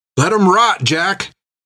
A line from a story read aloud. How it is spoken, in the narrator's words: shouted Tan